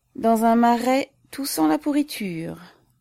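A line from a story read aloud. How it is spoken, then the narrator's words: Sighing Little Russian. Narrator (French): dit le petit Russien en soupirant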